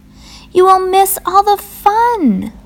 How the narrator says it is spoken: cried Frog

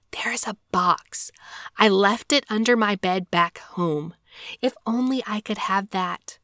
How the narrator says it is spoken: he whispered in his ear

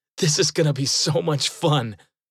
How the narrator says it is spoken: laughed and said

